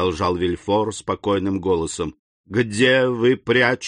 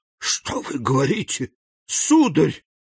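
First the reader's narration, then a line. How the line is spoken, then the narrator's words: Distressed woman exclaiming. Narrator (Russian): воскликнула госпожа де Вильфор, ломая руки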